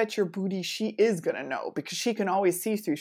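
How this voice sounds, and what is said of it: Usual voice. Nothing is said of it.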